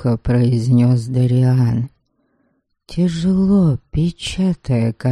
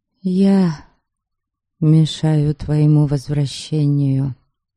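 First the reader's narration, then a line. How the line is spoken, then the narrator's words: Sad. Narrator (Russian): грустно завершила я его фразу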